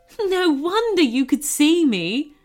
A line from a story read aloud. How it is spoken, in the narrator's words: chuckled the goblin